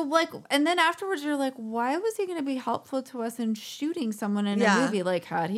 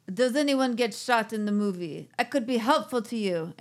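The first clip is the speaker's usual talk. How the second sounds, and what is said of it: Bad Russian or Armenian accent. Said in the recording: “This is my bad Russian accent or Armenian accent. I don't know what accent I'm doing.”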